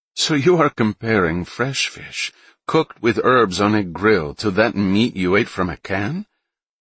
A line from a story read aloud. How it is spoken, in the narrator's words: Solange laughed